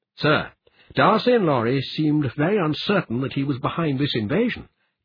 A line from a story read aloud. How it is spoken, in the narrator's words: Kelvin said